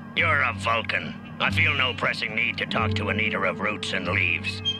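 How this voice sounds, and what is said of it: Character voice of Kzinti captain. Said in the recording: “James Doohan doing the voice of the Kazinti Chuffed Captain”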